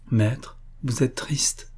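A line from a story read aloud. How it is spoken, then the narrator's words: Said in a low voice. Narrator (French): dit-elle à voix basse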